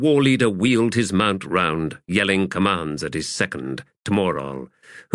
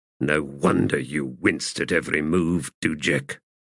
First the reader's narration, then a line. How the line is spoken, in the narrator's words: he said under his breath